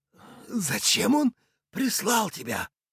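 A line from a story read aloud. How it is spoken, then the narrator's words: Hoarse old man. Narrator (Russian): хрипло спросил старик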